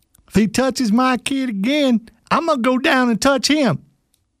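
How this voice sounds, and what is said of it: Imitated redneck accent. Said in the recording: “It's a very accurate accent, by the way ... the redneck”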